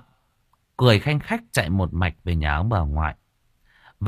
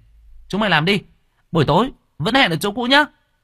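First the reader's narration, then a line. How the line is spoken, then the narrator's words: Shouting. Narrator (Vietnamese): miệng hét lên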